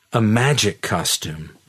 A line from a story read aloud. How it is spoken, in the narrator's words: she exclaimed